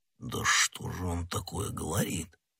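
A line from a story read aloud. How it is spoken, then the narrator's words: Puzzled mutter. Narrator (Russian): пробормотал Портос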